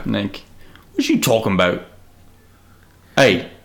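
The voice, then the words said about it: Put-on South London accent. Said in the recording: “I equate South London to, like, John Boyega... A lot of, like, very strong, like, down vowels.”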